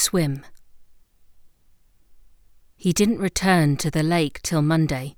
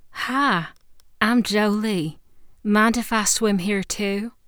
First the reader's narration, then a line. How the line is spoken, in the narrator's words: She spoke in a deep southern drawl